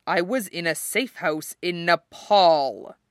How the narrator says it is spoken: Steve said grimly

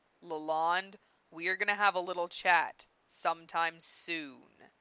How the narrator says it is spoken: Dave growled at her

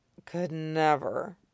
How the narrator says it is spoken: Zoro slurs

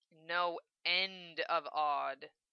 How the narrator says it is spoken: Lena growled

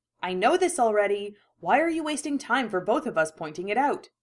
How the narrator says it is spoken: grunt

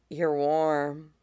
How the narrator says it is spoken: Caeneus murmurs, half asleep already

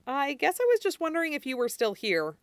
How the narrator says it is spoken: Stiles says

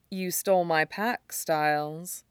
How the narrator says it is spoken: murmurs

